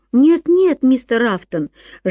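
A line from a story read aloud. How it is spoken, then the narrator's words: Lively exclamation. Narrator (Russian): живо воскликнул Ян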